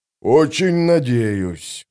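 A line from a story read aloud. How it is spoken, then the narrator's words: Gloomy grumble. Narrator (Russian): мрачно проворчал сапер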